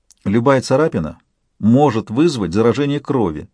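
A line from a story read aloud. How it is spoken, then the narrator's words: Lecturing tone. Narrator (Russian): менторским тоном проговорила Альба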